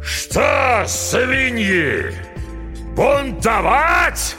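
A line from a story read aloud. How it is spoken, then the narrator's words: Furious roar. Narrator (Russian): взревел Смирягин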